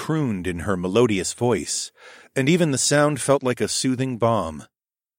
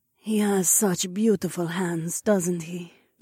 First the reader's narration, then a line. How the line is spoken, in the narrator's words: Zoe purred close to my ear